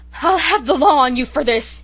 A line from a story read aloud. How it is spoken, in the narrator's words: he gasped